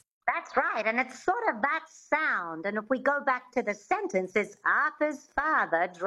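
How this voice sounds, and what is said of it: Usual voice. Nothing is said of it.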